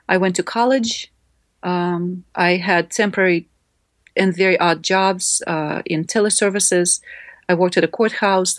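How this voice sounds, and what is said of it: Non-native English accent. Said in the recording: “I only knew a couple of English words when we came ... I tried to practice pronouncing new words without accent. But of course, the accent just didn't go anywhere. It improved, but it didn't go away.”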